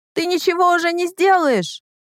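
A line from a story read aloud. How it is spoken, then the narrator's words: Yelled. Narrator (Russian): орала она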